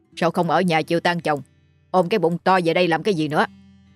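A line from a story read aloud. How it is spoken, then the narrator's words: Irritable snapping. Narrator (Vietnamese): bá Hậu Tân đã gắt gỏng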